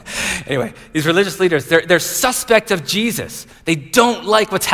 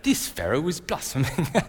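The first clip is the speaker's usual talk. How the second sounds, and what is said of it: Put-on English accent. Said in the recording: “I always think of it in an English accent.”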